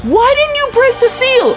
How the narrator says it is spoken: she screams and goes

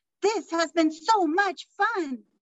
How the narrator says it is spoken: Madison Moy exclaimed

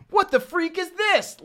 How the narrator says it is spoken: Liant exclaimed

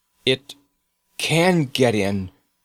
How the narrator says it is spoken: he said hoarsely

